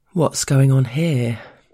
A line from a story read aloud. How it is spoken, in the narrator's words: the boss drawls casually